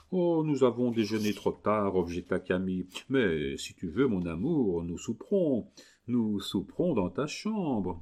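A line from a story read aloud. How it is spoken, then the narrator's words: Loving voice. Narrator (French): ajouta-t-il d'une voix amoureuse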